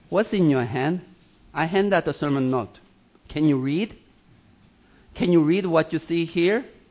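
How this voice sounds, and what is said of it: Swedish accent. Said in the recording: “your Swedish accent”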